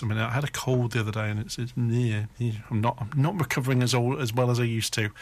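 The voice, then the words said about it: Slightly hoarse voice. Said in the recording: “I'm still a bit hoarse.”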